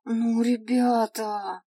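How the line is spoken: Despairing drawl. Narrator (Russian): протянул эльф, не скрывая своего отчаяния

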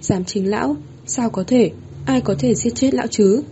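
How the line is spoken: Dazed mutter. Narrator (Vietnamese): Vĩnh Hưng Đế lẩm bẩm

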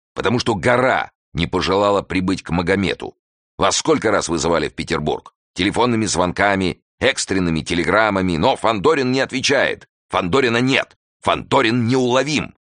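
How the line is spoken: Angry, unstoppable. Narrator (Russian): сердито заговорил Жуковский и уже не мог остановиться

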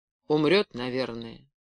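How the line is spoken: Indifferent, barely audible. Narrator (Russian): безучастно почмокал и сказал еле слышно

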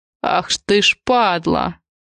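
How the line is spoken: Spiteful sneering curse. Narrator (Russian): Не сдержался в выражениях и злобно ухмыльнулся

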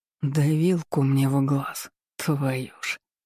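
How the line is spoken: Resigned sigh. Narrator (Russian): Обреченно вздохнул

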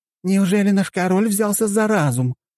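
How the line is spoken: Joyful woman's exclamation. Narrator (Russian): радостно воскликнула приличного вида дамочка

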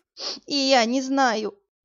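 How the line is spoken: Sobbing bawl. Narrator (Russian): постоянно всхлипывая, проревела Яга

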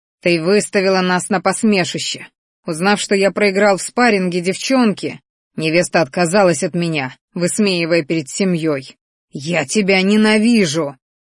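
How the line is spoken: Enraged growl. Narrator (Russian): рычал один из парочки, чьи зрачки налились кровью

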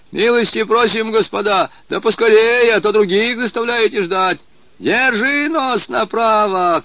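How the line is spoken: Drunken shouting. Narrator (Russian): кричал захмелевший голос

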